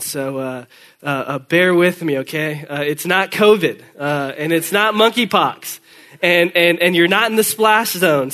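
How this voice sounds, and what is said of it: Congested voice. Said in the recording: “If I sound congested, I'm not sick. I'm just coming on the other side of that little head cold”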